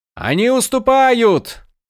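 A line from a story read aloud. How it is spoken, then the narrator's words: Shouting. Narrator (Russian): кричал Малфурион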